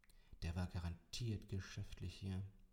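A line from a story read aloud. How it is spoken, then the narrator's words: Muttering. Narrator (German): murmelte ich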